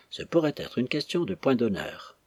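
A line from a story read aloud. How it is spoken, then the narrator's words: Murmured. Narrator (French): sans lever les yeux, murmura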